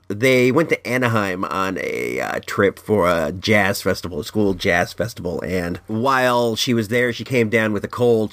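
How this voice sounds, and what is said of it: Losing voice, sounds hoarse. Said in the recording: “I got a cold. ... I'm losing my voice.”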